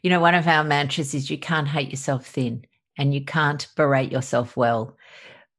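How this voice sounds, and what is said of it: Australian accent. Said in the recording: “obviously from my accent i'm from australia”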